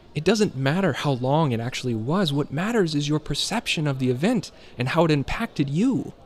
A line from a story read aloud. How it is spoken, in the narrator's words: Julian exclaimed, as if he has said this dozens of times